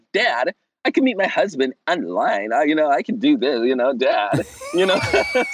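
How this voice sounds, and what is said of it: Imitates another person's voice. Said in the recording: “it's a really good impression”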